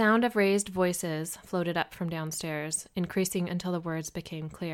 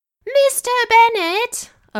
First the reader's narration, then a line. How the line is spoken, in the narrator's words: a woman screeched